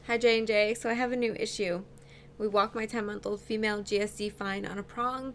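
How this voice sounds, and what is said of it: Strained, fading voice. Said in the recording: “I feel like I'm losing my voice ... I, like, can't talk tonight ... We're, like, whispering by the end.”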